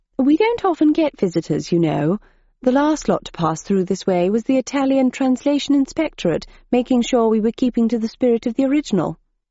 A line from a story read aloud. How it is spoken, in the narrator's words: The cricket, who spoke in a clipped accent said